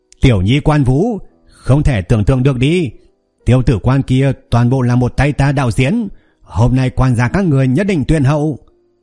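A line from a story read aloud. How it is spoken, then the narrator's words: Loud shout. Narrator (Vietnamese): hắn hét lớn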